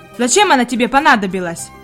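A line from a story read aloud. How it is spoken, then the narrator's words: Rude servant questioning. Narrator (Russian): грубо продолжал допрос слуга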